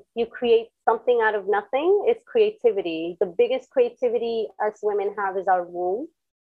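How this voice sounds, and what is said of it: Speaks with a noticeable accent. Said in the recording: “I know my accent comes out every now and then.”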